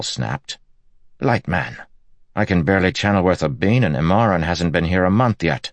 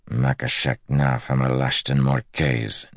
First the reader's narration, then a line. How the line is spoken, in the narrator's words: Nelam mumbled